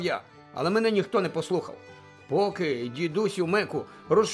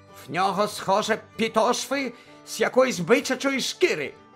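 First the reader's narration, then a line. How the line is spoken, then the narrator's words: Angry. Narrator (Ukrainian): сердито сказав Фріц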